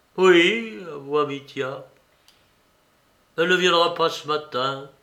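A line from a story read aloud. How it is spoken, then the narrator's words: Timid. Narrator (French): continua-t-il en regardant timidement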